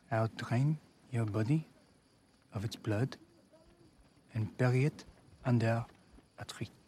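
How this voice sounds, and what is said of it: Put-on French accent. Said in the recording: “his French accent ... just so you can hear how good it is”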